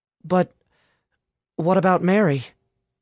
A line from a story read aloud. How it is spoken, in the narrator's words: Alice asked hesitantly